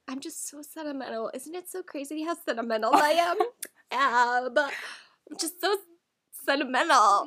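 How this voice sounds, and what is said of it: Imitation of their mom's voice. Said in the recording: “our mom voice.”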